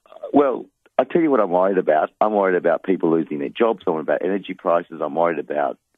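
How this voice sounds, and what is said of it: Usual voice. Nothing is said of it.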